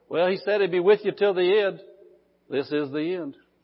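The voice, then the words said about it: Small, impish mocking voice. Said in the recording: “that stupid little voice ... that little impy voice ... that little stupid voice”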